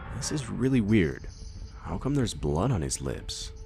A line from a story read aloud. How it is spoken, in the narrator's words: My grandpa said in a confused voice